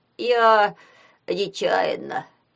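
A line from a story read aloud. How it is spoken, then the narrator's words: Miserable nasal drone. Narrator (Russian): прогудел в нос несчастный третьекурсник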